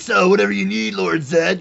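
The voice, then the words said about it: Imitates cartoon villain voice. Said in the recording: “I did my impression of ... Goldar from the original series sounds like Triple H voiced him ... I'm going to put a little bit of wine in this voice ... It sounds just like Triple H.”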